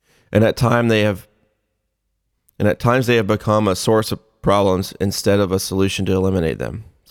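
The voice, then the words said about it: Choked-up, emotional reading voice. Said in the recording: “I'm getting a little choked up.”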